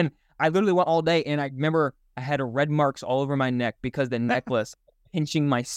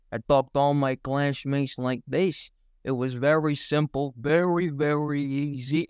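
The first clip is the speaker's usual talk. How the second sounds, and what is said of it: Put-on Italian accent. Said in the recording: “I did an Italian accent the entire day”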